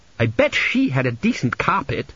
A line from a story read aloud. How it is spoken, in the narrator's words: snapped Petracci